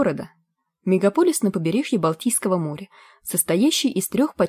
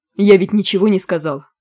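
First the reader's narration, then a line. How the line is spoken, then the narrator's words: Irritated reply. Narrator (Russian): раздраженно ответил он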